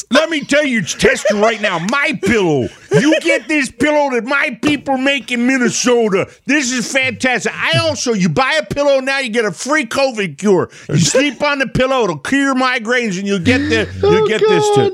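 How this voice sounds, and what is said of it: Worked-up DJ voice, Mike Lindell impression. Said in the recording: “my pillow guy gets worked up, got a classic DJ voice.”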